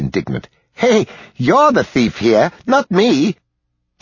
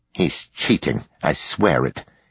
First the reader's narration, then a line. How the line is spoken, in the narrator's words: he muttered